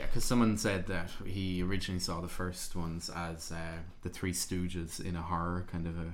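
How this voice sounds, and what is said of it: Usual voice. Nothing is said of it.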